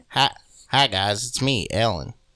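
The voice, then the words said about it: Imitates another person's voice. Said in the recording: “I can do a good Ellen impression.”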